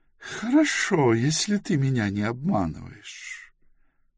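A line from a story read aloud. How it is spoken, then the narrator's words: Good-natured cooing. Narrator (Russian): благодушно проворковала Лайзалор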